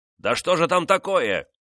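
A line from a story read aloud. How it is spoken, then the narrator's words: Impatient shout. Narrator (Russian): нетерпеливо крикнул Делану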